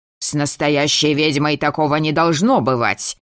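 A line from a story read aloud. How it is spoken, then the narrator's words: Barked from a dark corner. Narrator (Russian): гаркнули из самого темного угла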